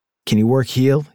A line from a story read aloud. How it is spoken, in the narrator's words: he asked